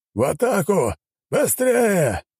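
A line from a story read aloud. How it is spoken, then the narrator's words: Commander shouting. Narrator (Russian): прокричал командир отряда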